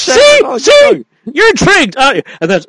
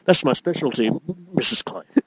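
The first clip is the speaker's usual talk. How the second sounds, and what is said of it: William Atherton impression. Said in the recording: “I was going to do the William Atherton.”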